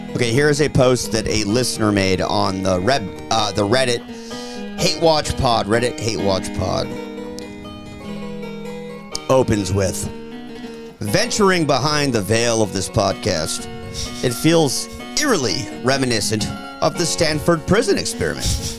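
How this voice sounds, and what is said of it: Low announcer-style reading voice. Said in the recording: “You do the reading voice ... I used to do the announcer voice ... Do it like lower though ... Yeah, it's lower.”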